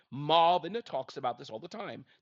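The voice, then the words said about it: Poor put-on British accent. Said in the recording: “That was a poor British accent.”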